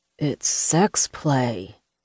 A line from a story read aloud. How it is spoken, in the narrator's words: mumbled